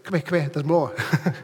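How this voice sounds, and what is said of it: Bad put-on Irish accent. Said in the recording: “That's a bad Irish accent.”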